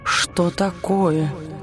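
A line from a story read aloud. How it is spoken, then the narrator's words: Suspicious whisper. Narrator (Russian): подозрительно прошептала тень, ощутив перемену в ее настроении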